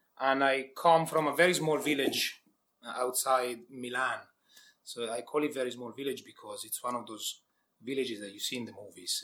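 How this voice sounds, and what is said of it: Italian accent. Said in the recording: “as my accent sets it out, I'm Italian”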